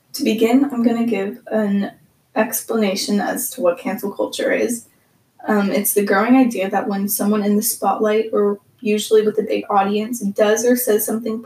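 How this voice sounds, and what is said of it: Slightly breathless, odd-sounding voice. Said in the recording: “having a little bit of a weird day with my asthma, so if I sound a little more out of breath or my voice is just weird”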